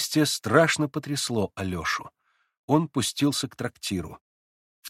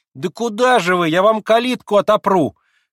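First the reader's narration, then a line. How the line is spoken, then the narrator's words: Shout. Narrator (Russian): крикнула было Марья Кондратьевна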